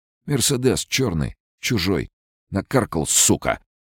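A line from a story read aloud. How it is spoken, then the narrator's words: Angry curt remark. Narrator (Russian): Зло бросил он Сашке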